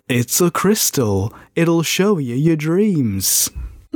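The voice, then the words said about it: Imitates another person's voice. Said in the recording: “Can I do my David Bowie in Labyrinth, please?”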